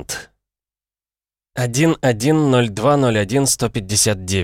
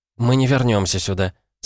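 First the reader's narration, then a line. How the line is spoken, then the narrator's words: Calm. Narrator (Russian): спокойно сказала Джейн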